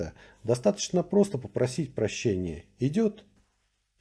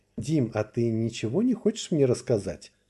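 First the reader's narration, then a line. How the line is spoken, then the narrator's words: Plain question. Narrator (Russian): Наконец спросил он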